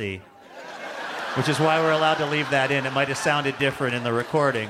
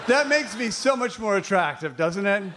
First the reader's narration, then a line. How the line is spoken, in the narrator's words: They laugh nervously